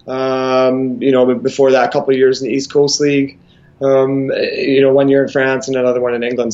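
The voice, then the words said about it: Mild Scottish accent, Canadian-tinged. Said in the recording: “a guy from Scotland ... a little bit of a thicker accent ... watered down over the years ... mixed a little Canadian into the accent ... a Canadian mixed accent”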